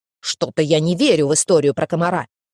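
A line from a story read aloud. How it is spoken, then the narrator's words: Grumbling small child. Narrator (Russian): проворчал карапуза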